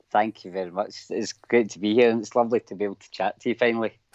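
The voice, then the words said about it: Thick Scottish accent. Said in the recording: “I've got a really thick Scottish accent ... I think I said that I've got a really horrible Scottish accent”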